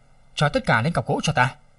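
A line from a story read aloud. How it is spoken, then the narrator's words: Cold, disgusted. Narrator (Vietnamese): Lăng Thiên chán ghét, lạnh lùng nói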